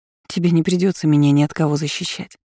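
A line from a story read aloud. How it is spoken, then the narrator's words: Sigh. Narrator (Russian): вздохнула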